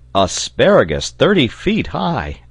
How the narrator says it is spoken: exclaimed the sailor

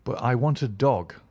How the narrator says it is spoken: I cried

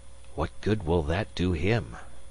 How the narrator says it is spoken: Magnan whispered, looking nervous

